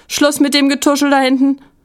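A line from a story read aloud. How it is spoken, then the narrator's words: Called out. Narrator (German): rief Frau Rose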